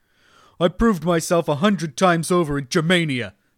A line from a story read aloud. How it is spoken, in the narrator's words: the prefect snapped